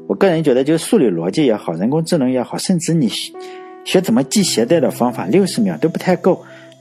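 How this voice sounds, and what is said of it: Regional accent, non-standard Mandarin. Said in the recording (Chinese): “口音不行，说你这个没有普通话”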